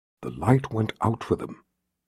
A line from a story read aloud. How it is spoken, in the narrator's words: said in a low voice